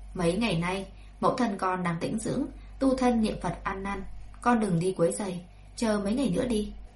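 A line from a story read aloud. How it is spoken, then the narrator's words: Cold. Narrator (Vietnamese): Lão phu nhân chỉ lạnh lùng thốt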